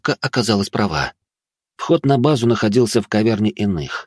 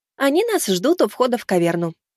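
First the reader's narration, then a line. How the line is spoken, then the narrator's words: Cheerful prompt. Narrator (Russian): бодро подсказала подруга Володи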